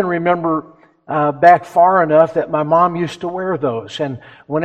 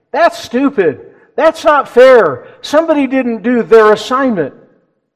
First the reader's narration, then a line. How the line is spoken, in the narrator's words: The children exclaimed